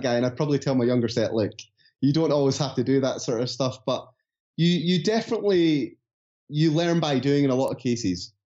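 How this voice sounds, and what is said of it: Scottish accent, speaking fast. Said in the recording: “I'm sorry if I'm going too fast, by the way. This is just my Scottish accent coming through the podcast.”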